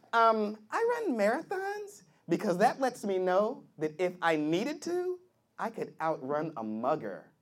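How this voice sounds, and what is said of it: Stereotyped white girl voice. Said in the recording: “my white girl impersonation.”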